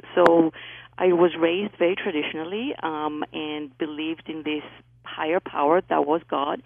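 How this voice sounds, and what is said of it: Greek accent. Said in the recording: “I was raised in Greece. That's where my accent is from.”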